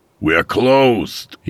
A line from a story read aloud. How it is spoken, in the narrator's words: he hollered